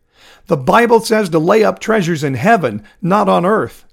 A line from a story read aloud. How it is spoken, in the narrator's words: Joseph said loudly enough to be heard by all in the main room